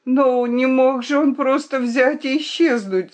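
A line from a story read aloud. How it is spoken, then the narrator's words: Shout. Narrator (Russian): закричала я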